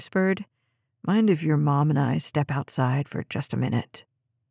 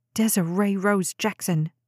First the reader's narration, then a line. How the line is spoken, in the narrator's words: Jade snapped, nearly choking on her food